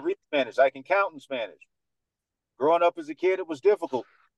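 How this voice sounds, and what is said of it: Dominican American accent. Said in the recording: “radio voice ... this is just my Dominican accent”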